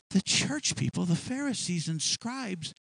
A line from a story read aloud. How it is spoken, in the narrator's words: they murmured